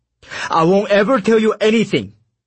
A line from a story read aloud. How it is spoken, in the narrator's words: Comrade Pyok yelled at us